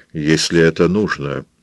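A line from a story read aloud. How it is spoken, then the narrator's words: Calm but strained. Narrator (Russian): спокойно и все-таки с трудом проговорил Роберт Джордан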